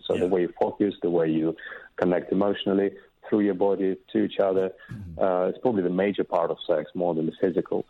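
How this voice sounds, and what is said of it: Slight accent, attractive voice. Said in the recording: “I'm noticing a little accent of yours ... You've got a great voice ... That's a sexy voice”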